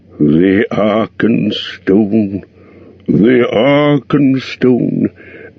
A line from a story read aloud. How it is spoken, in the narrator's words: murmured Thorin in the dark, half dreaming